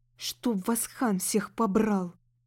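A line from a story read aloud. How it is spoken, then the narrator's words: Growling young woman. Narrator (Russian): прорычала девушка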